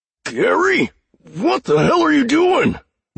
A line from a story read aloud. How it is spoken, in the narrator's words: one of the men cried